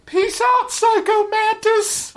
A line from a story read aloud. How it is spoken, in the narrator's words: I yell after him